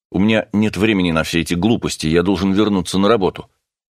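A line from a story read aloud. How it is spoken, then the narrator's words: Irritated remark. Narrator (Russian): Вростик раздраженно заметил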